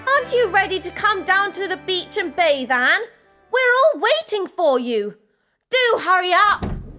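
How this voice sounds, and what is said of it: Shouting. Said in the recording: “stop shouting all day long”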